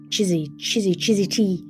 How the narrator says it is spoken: wheezed the coltit

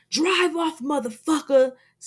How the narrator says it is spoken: Mozzie screams

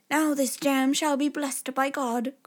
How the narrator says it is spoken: cried the little tailor

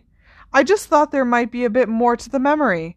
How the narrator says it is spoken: said Harry desperately

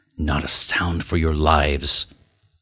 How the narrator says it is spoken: McMurdo whispered

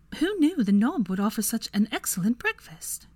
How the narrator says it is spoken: exclaimed

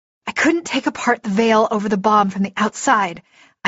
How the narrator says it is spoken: panted

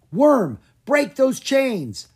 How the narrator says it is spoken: Drake cried

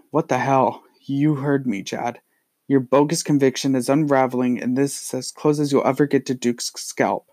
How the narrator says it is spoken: He stutters and manages to say

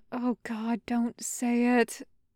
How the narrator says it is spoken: Julio groaned, slapping a hand over his face

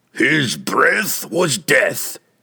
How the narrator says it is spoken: Thibbledorf shouted

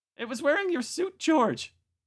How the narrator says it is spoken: Marta said hysterically

